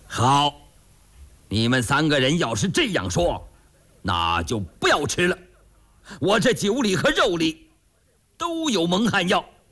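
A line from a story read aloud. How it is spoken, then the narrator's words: Big man laughing. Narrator (Chinese): 那卖酒的大汉他笑了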